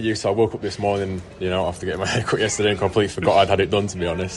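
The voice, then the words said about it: Lilting Yorkshire accent. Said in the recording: “lovely accent, the Yorkshire lilt of”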